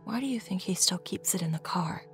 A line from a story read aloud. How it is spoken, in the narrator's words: Mom whispered